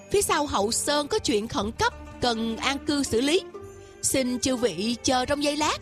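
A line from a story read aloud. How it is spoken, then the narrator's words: Smiling. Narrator (Vietnamese): Tiêu Dật Tài mỉm cười nói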